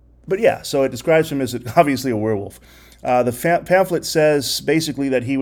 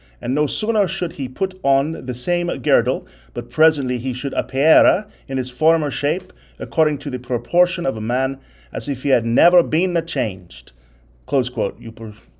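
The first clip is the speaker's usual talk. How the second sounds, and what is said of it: Goofy put-on accent reading aloud. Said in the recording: “Forgive my goofy accent there.”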